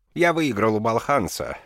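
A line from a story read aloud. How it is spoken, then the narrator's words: Cheerful. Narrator (Russian): весело сказал Шакуни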